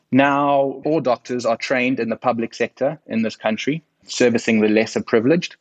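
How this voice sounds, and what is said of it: South African accent. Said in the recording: “my accent from sunny South Africa”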